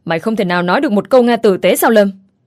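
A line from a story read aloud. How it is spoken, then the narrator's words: Loud reproachful man. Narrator (Vietnamese): Hoàng Trinh, ông ta nãy giờ im lặng, nghe đến Lâm tỏ thái độ như vậy thì lúc này ông ta nhìn Lâm nói lớn tiếng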